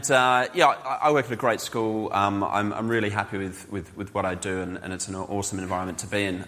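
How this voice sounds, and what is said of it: Australian-accented English. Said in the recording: “Despite my accent, we do speak the same language.”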